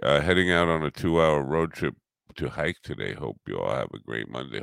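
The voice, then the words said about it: Low, tired-sounding voice. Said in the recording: “My voice is sounding pretty low here. Probably because I didn't get much sleep.”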